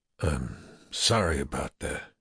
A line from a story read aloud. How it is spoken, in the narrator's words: he murmured